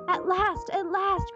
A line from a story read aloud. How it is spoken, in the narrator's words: cried Mary